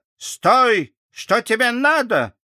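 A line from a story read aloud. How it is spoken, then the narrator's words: Shout. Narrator (Russian): она крикнула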